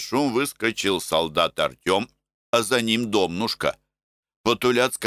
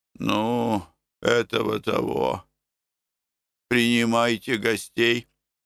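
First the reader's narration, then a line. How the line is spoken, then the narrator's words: Sad speech. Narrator (Russian): печально проговорил Тит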